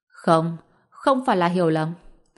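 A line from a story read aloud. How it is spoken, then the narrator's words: Interrupting, very serious. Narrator (Vietnamese): Bạch Diệc Phi ngắt lời Mã An, nói bằng giọng cực kỳ nghiêm túc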